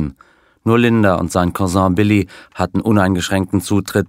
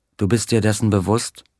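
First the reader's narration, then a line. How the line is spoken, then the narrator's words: Plain. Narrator (German): fragte sie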